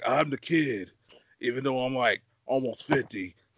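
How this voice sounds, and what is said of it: Raspy, smoker-like imitated voice. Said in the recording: “best Callen impression... I sound like I got a smoking habit”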